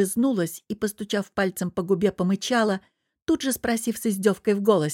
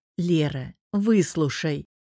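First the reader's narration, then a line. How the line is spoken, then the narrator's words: Sighing, gentle plea. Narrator (Russian): вздохнув, ласково попросил он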